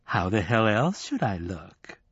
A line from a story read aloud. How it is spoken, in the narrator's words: she demanded, sweetly